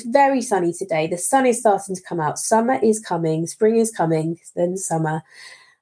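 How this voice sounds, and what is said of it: Unwell, affected voice. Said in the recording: “I do apologize for my voice today. I'm not very well”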